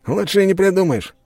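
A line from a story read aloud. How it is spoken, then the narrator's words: Snorting chuckle. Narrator (Russian): хмыкнул Щелбан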